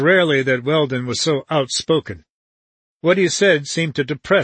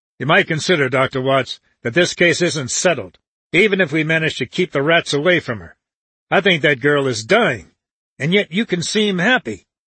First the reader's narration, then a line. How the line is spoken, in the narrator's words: Weldon said to him sharply